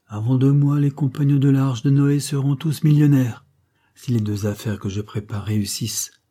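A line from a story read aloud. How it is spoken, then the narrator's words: Solemn leader. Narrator (French): répliqua le chef d'un ton solennel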